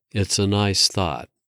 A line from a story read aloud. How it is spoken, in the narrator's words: said, her voice softening